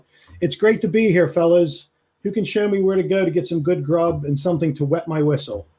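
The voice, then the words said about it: Loud booming shout. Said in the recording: “in a real booming voice, he'll shout”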